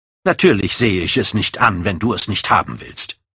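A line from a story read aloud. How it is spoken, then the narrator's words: Cold. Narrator (German): sagte er kalt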